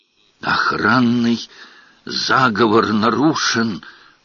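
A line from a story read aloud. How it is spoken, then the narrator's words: Archivist's whisper. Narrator (Russian): прошептал архивариус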